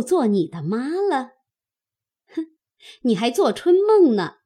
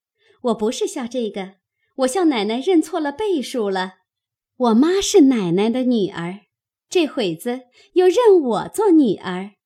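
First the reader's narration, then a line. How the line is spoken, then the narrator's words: Laughing. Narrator (Chinese): 红玉笑道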